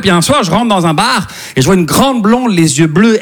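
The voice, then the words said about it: Slight Québécois French accent. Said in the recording (French): “ça se peut que vous entendiez un petit accent québécois”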